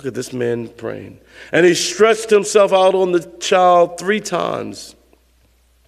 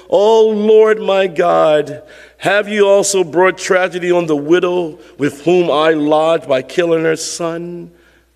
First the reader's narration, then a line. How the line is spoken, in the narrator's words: cried out to the Lord and said